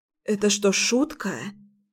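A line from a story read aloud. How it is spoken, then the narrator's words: Hoarse question. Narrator (Russian): спросила я осипшим голосом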